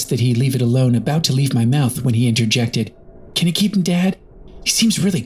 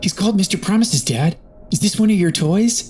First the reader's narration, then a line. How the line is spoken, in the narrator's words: He beamed at me